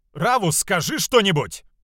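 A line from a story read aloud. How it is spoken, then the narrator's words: Shouting. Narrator (Russian): кричал Джуно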